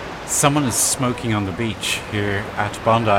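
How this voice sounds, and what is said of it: Usual voice. Nothing is said of it.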